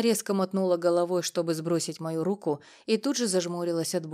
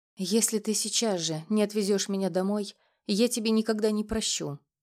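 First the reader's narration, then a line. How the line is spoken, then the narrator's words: Tearful trembling whisper. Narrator (Russian): прошептала она, и ее губы задрожали, угрожая новыми слезами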